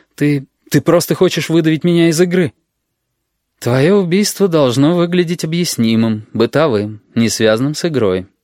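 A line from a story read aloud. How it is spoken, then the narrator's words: Gentle. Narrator (Russian): мягко сказал Максим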